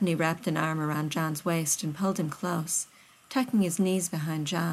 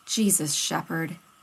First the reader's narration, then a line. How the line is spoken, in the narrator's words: Rodney finally grumbled